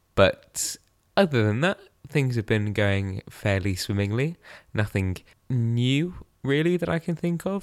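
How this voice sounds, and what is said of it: Voice sounds unwell. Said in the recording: “You might be able to hear it in my voice, but I have not been the wellest of people”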